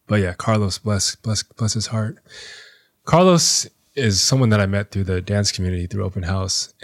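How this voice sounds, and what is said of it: Choked-up, emotional voice. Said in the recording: “I'm getting choked up again”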